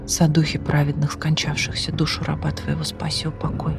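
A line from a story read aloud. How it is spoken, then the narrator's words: Whispered then cried out. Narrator (Russian): Прошептал он и вскрикнул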